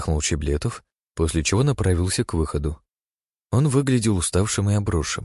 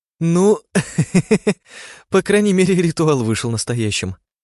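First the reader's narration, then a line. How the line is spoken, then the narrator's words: Laughing. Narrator (Russian): засмеялась Анна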